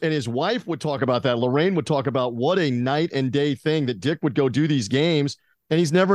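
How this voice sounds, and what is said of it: Usual voice. Nothing is said of it.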